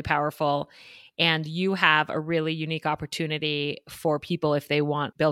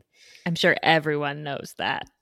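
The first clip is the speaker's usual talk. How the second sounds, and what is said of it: Sarcastic delivery. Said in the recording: “I'm being sarcastic.”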